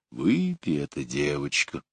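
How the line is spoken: Quiet deep thick voice. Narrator (Russian): густой, низкий голос тихо сказал

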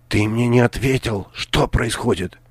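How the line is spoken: Whispered repeat. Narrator (Russian): Шепотом повторила она

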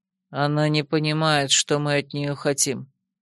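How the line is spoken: Calm explanation. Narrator (Russian): спокойно пояснил черноволосый

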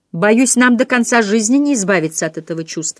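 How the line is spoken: Angry speech. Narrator (Russian): сердито говорила Филлис Дикон

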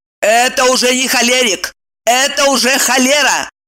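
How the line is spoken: Barking. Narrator (Russian): Рявкнула Ева

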